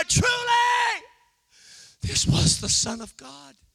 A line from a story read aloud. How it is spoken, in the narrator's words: A centurion who was a part of the murder cried out